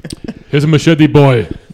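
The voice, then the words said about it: Put-on Jamaican accent. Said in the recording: “Good accent? That's the best Jamaican accent I've ever heard.”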